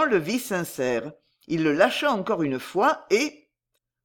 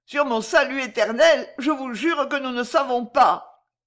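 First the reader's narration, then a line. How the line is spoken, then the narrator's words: Moaning, wretched. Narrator (French): gémit le misérable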